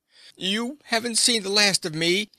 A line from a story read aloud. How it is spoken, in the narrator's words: he shouted